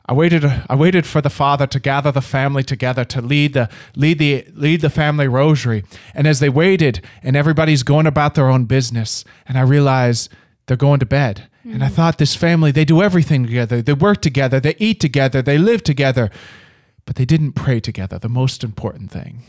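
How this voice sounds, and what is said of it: Put-on Irish accent. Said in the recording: “break into his Irish accent ... Probably shouldn't have done the Irish accent, but I just couldn't help myself.”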